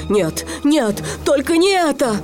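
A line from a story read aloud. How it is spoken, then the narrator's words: Frightened pleading. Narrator (Russian): Крюк увидел его острые зубы и взмолился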